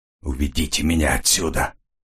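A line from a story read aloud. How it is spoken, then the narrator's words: Breathless exhale. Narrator (Russian): выдохнул Келвин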